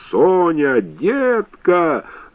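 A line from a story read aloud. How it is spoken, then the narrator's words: Yelling. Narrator (Russian): заорал он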